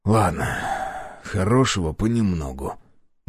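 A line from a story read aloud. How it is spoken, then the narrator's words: Gruff mumble. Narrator (Russian): буркнул я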